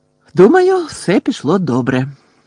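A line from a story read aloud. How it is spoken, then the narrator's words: Cheerful. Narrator (Ukrainian): радісно сказала Герміона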